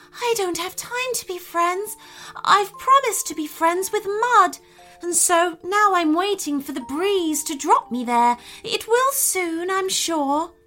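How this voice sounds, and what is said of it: Soft, gently spoken character voice. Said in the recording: “said the seed in a softly spoken voice.”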